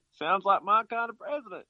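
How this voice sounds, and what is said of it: Put-on Southern US accent. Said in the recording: “That's my southern accent.”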